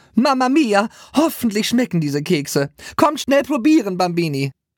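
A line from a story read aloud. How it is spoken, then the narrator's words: Called out. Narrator (German): Maria rief dann irgendwann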